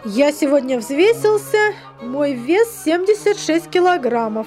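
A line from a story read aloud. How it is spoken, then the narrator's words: Plain. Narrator (Russian): сказал отец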